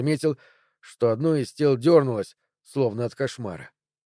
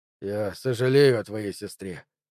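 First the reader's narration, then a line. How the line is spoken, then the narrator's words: Tired. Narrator (Russian): устало проговорил он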